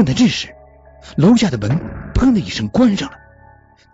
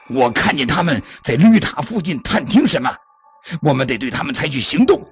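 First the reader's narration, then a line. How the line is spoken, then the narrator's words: Roaring. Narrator (Chinese): 胶带咆哮着对假舅舅说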